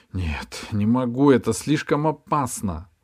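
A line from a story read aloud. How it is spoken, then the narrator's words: Sighing. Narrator (Russian): вздохнула Ирия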